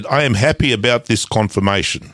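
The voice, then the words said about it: Poor fake Spanish accent. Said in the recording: “That's the shittest Spanish accent.”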